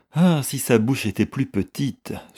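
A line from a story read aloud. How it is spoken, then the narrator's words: Sighed. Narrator (French): soupira Mrs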